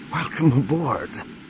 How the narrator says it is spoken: Mara gasped

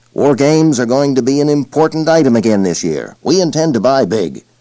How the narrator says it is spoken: Grumbling, the sales manager concluded

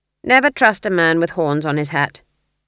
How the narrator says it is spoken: said Granny flatly

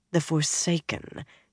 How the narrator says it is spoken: Jiayin muttered

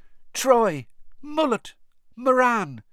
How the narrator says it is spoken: It was still squeaking

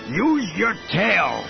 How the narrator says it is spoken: bellowed in Salonian

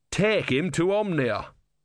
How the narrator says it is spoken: said Brother thickly

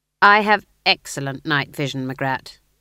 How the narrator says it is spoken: said Nanny sternly

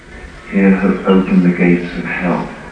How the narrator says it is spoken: Standing calmly in front of him, Kakuin said

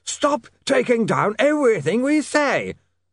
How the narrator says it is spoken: yelled Slant

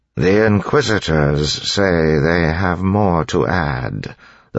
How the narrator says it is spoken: the Lord Ruler said in a tired voice

